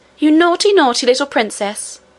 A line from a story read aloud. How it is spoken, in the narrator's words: cried Lootie